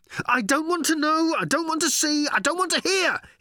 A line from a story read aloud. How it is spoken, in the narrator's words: he yelled as he ran